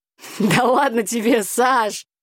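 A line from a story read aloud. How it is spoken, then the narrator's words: Laughing. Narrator (Russian): Смеясь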